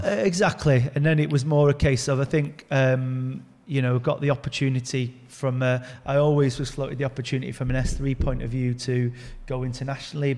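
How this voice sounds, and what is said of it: Manchester English accent. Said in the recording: “you could probably tell by the accent, I'm a Manchester lad born and bred”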